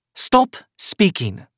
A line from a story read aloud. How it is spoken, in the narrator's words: Eliza snapped